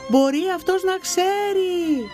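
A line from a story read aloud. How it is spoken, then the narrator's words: Sun shouting. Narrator (Greek): της φώναξε ο ήλιος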